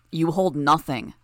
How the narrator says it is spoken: Gru answered, raising his voice, his powers warping it

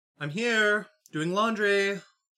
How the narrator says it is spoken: she called out to the phone

